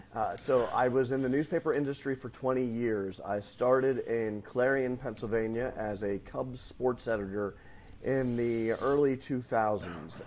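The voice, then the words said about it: Northwest Pennsylvania accent. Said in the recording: “my Northwest PA accent”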